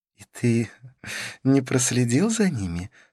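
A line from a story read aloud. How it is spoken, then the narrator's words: Laughing question. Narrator (Russian): спросила Карлос, смеясь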